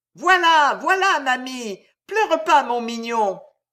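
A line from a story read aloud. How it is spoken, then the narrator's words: Shouting comfortingly. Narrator (French): criait la porteuse de pain, consolant son enfant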